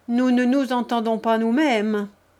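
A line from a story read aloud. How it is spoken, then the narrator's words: Grumbling. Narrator (French): grommela un des visiteurs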